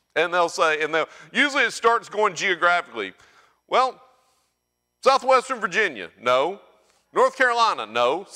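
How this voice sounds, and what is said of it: Southern US accent. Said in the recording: “I'm from Alabama. Now, you might not have been able to tell that by my accent.”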